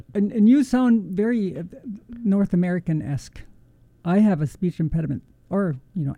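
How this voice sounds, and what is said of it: Slight Arabic accent. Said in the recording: “the slight Arabic accent”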